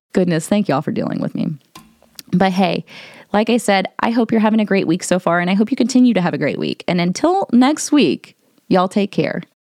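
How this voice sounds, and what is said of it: Congested voice, audible mouth breathing. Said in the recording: “I probably sound like a mouth breather right now because I am a mouth breather. I am still kind of under the weather ... I sound like a monster.”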